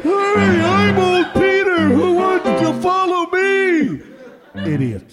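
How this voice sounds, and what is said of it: Impression of old Peter. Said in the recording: “did a very good impression of old Peter”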